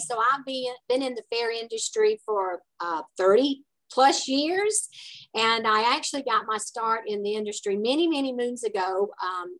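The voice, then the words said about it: Southern American accent. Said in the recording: “I get a little bit from my southern accent here”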